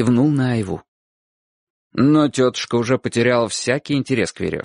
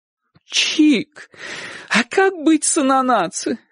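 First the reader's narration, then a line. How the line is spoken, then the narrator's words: Pleading aunt. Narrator (Russian): взмолилась тетушка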